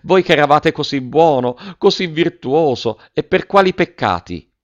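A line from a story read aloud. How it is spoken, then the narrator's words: Exclamation. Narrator (Italian): esclamò la signora Geltrude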